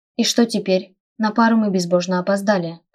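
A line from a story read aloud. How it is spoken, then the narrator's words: Grumbling. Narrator (Russian): проворчала Эрика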